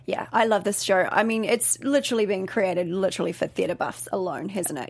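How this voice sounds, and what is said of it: New Zealand accent. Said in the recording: “originally from New Zealand, hence the accent.”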